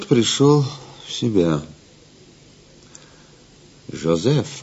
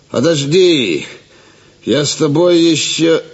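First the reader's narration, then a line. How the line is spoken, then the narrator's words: Annoyed, suspicious shout. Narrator (Russian): Раздосадованный Гивис, подозревая подвох, крикнул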